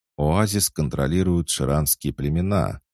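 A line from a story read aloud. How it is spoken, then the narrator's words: Calm reminder. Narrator (Russian): спокойно напомнил Рамон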